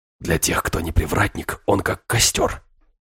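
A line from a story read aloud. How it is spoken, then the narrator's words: Whisper. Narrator (Russian): прошептал Филиппа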